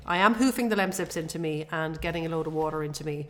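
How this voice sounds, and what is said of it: Voice sounds sick, under the weather. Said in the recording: “I'm still a little bit under the weather, as you can probably tell from my voice”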